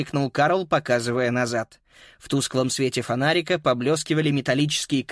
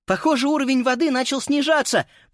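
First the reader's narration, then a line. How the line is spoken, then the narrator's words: Shout. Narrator (Russian): прокричала Фрида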